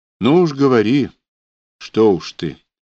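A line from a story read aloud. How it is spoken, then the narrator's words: Gentle close pleading. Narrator (Russian): ласково попросила Анюта, трогая дыханием волосы ему на затылке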